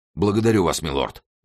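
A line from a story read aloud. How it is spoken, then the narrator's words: Exclaimed. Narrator (Russian): воскликнул Мордаунд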